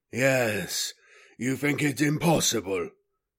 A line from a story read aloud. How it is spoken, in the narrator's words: Abadas said gruffly